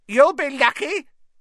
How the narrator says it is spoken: said a cackling voice

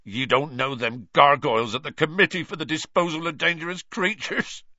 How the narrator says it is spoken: choked Hagrid

